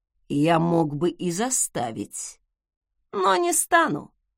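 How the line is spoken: Silky, insinuating voice. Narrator (Russian): вкрадчиво проговорил Закари

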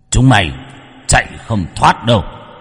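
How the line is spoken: Roaring. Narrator (Vietnamese): Hắn gầm lên

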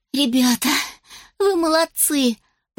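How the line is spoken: Praising. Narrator (Russian): похвалила пекарь и Роз

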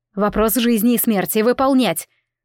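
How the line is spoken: Emotional snarl. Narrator (Russian): Рыкнула на эмоциях

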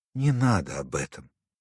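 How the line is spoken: Quiet. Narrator (Russian): тихо сказала Вера Андреевна

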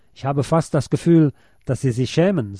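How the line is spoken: Plain. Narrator (German): sagte Lukács

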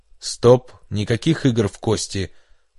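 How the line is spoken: Growled. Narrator (Russian): прорычал Гуин

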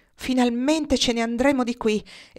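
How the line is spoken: Voice trembling with relief, hysteria. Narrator (Italian): esclamò la signora Hossack con la voce che tremava per il sollievo e l'isterismo

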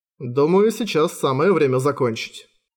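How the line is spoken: Calm reply. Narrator (Russian): спокойно отозвался тот

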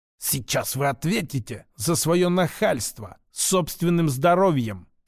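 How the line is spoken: Hissing mustached man. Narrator (Russian): прошипел усач

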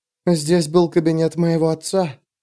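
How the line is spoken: Whisper. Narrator (Russian): прошептала Савин

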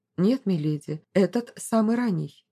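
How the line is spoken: Plain. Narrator (Russian): ответил Михельгам

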